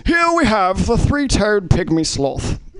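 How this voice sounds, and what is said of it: Distinguished British nature-narrator voice. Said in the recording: “narrated by Sir David Attenborough, who's just a very distinguished, beautiful accent. The thing I love about British accents is they always sound a little bit smarter”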